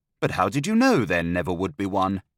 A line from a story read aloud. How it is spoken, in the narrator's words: I asked